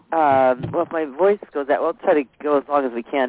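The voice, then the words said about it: Strained, fading voice. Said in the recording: “I'm sort of losing my voice here.”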